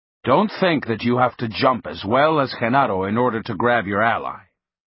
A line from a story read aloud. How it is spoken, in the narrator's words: Don Juan said in a cautioning tone